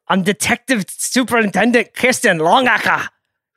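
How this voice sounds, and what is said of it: Attempted Scottish accent. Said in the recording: “Do you think you can do a Scottish accent? Is that what that was? ... I don't even know what that was.”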